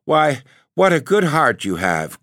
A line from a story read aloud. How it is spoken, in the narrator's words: cried his wife